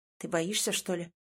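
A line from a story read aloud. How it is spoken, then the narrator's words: Hoarse question. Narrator (Russian): хрипло спрашивает Ваня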